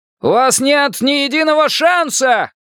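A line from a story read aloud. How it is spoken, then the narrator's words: Shouting. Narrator (Russian): кричал он, видя себя бесстрашным лос-анджелесским полицейским Джо Фрайди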